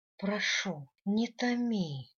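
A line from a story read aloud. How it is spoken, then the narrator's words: Moaning. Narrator (Russian): простонала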